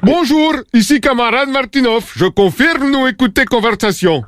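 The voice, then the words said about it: Caricatured Russian accent. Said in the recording (French): “les Russes écoutent sûrement cette conversation... moi faire accent pas caricature”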